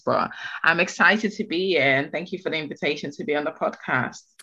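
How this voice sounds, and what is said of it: Slightly congested, bunged-up voice. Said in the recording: “I have a little bit of a cold coming up, so if my voice sounds a bit bongy”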